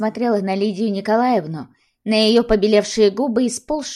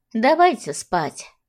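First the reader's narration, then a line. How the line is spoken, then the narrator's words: Sighing. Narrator (Russian): вздохнула баба Глаша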